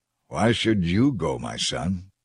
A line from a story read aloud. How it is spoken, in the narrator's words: Joab replied